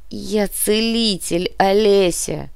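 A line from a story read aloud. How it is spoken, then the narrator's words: Groan. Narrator (Russian): простонал профессор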